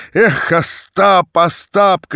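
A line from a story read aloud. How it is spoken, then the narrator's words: Shouting. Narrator (Russian): кричал Тарас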